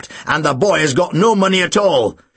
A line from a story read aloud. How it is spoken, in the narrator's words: Snape snapped